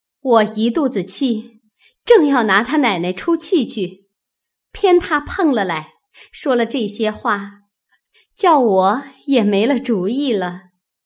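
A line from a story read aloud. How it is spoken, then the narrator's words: Laughing. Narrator (Chinese): 探春笑道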